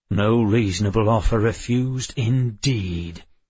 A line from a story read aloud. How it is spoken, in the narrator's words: Addison snarled